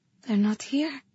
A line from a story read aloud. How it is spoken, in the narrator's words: I murmured